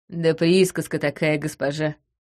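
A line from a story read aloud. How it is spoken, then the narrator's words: Snort. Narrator (Russian): хмыкнул он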